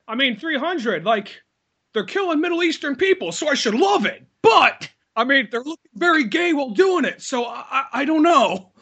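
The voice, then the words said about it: Mock TV newscaster voice. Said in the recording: “Why are you still talking your fucking newscaster voice?”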